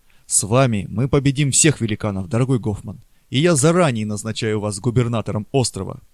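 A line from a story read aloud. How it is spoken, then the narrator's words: Exclaiming. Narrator (Russian): воскликнул он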